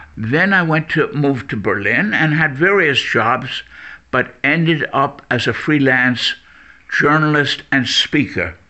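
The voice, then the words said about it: Strong American accent. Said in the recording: “I never lost my American accent. It's very, very apparent.”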